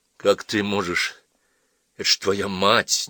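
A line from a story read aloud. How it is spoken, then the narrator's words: Uncertain mutter. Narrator (Russian): неуверенно пробормотал Джон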